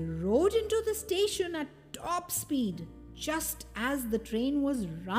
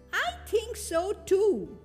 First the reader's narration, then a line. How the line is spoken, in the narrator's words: said Noddy happily